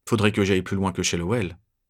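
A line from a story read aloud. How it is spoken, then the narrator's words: Murmuring. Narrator (French): je murmure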